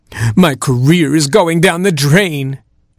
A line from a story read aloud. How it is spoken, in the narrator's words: cried